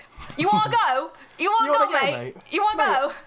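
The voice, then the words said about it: Put-on Chav accent. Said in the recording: “That's the only accent I'm good at. ... I'm good at a freaking Chav accent.”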